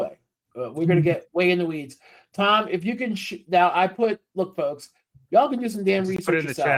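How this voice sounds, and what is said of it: Usual voice. Nothing is said of it.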